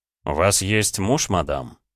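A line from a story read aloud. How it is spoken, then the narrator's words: Calm reminder. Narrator (Russian): спокойно напомнил я де Тарант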